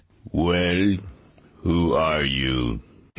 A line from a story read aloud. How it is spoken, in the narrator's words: His voice was so deep it seemed to shake the earth